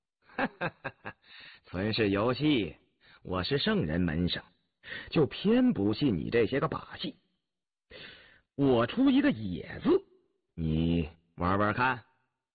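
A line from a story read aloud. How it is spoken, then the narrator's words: Laughing. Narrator (Chinese): 曾静笑了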